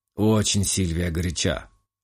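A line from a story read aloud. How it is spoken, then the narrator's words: Muttered under breath. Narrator (Russian): Буркнул себе под нос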